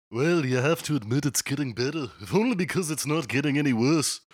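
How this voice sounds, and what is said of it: Put-on Liverpool accent. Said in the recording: “That's the best I can do for a Liverpool accent as well.”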